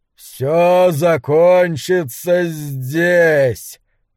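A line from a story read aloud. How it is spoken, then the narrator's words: Booming dragon voice. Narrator (Russian): произнес Хобарт грохочущим драконьим голосом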